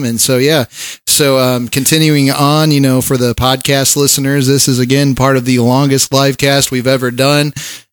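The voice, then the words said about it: Hoarse, rough voice. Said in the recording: “my voice, you can sort of tell ... your voice has been a little rough ... go hoarse”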